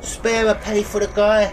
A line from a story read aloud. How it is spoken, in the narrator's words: George was elated still, and shouting